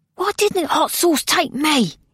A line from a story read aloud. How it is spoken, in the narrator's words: hissed Honesty, still injured